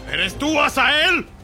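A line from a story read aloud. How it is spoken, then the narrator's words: Shout. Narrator (Spanish): le gritó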